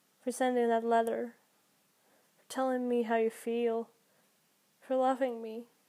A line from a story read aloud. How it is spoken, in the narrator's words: the angel murmured